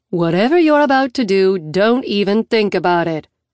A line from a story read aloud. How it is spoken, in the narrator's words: she says flatly